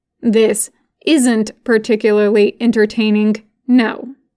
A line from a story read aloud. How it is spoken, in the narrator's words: says finally